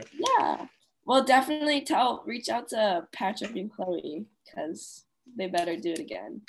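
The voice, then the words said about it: Nasal, congested voice. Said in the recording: “sorry about my voice if it sounds annoying and nasally”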